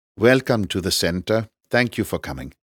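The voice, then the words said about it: British-influenced Pakistani accent. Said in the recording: “in a heavily British-influenced Pakistani accent”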